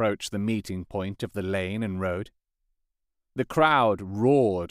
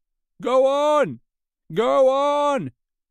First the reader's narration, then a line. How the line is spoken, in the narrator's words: cried the voices